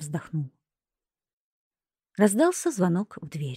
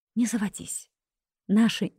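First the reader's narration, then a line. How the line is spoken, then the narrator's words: Female whisper. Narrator (Russian): шепнула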